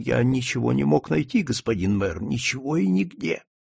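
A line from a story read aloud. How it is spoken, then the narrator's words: Whisper. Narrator (Russian): Он прошептал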